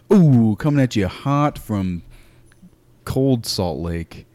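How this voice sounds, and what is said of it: Radio DJ voice. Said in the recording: “Why do I go into a DJ voice right when we start these podcasts?”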